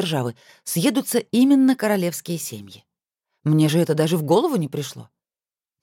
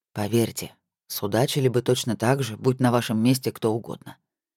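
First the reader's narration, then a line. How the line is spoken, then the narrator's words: Quiet. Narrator (Russian): тихо произнес Эмер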